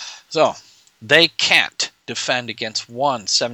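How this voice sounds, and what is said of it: Usual voice. Nothing is said of it.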